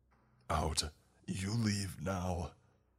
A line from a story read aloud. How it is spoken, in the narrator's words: The man bellows in a language that I could understand